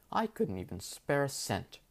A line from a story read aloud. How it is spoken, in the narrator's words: scoffed